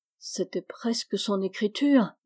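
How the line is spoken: Murmuring. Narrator (French): murmura Meg

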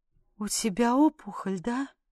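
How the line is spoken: Faint whisper. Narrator (Russian): прошептала я обморочным голосом

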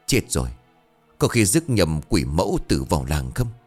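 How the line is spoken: Frightened muttering. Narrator (Vietnamese): Thầy kinh hãi lẩm bẩm

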